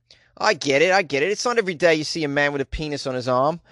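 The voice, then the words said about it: Put-on Australian accent. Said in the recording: “That was more of an Australian accent, I think. Yeah, I guess I'm getting better at the Australian accent.”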